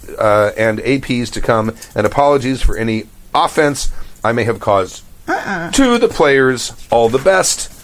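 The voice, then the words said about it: Mixed English-Irish-Australian accent. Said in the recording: “Australians don't like my Australian accent ... My accent is mongrel, to say the least.”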